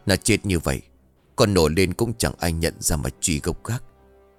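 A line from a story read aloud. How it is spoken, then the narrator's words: Panting mutter. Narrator (Vietnamese): ông Chí thở hồng hộc, lẩm bẩm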